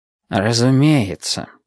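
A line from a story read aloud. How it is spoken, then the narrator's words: Quiet. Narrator (Russian): сказал он тихо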